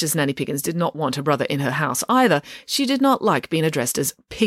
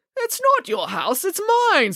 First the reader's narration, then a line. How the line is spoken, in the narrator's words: spluttered Mr